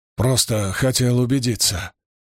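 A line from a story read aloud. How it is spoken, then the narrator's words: Mumble. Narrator (Russian): пробормотал он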